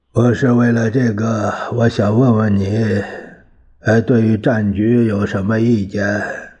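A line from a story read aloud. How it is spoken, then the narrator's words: Sighing. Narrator (Chinese): 蒋介石听后，他叹了一口气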